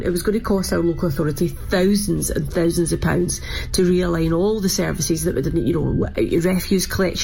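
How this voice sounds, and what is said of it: Scottish accent. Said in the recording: “with my accent, you probably sort of know the answer for that one ... no Scotland, no party”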